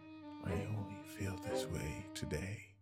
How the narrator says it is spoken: he said under his breath

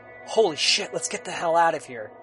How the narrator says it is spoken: David was able to whisper to Darren

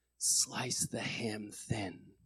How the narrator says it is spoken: from his deathbed, he just quietly whispered

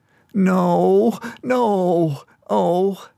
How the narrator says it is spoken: sobbed

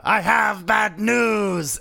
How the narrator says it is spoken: I'm just gonna scream out

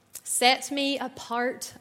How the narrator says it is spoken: I cried

